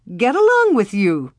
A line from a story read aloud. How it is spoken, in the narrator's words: said, laughing